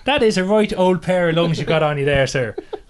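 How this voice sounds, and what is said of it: Put-on, unconvincing Irish accent. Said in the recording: “Only in a better Irish accent than that ... It's not really like that, is it? That's a bit more Father Ted.”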